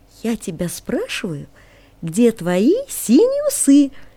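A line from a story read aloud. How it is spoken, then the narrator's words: Singsong. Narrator (Russian): продолжал нараспев Жоржик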